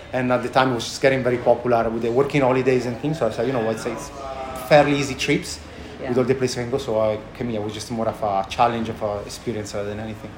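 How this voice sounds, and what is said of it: Thick accent. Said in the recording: “I haven't lost my thick accent”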